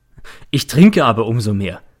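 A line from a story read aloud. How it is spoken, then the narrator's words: Speaking, then laughing. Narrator (German): sagte er und lacht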